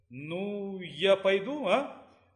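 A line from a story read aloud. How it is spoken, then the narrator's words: Timid. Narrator (Russian): Робко проговорила она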